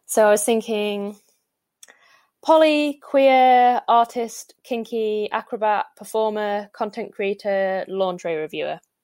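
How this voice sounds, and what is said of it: Northern English accent. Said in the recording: “you delivered it in a Northern accent and said, sum me up, which was really good”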